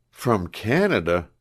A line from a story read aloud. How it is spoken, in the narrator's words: exclaimed, becoming still more interested in the stranger, and blushing deeply